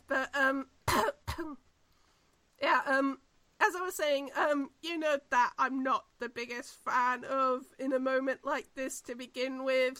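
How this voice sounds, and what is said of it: Tired, strained voice. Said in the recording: “my voice is going because I've been talking for so long”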